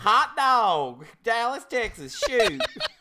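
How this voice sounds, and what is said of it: Put-on Dallas Texas accent. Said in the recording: “how do you do that Dallas accent”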